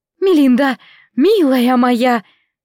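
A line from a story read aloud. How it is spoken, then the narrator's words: Trembling chirping voice. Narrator (Russian): дрожащим голосом прощебетала Клара Дэвис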